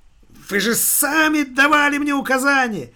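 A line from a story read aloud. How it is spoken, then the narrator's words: Shrieking. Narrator (Russian): визжала бухгалтерша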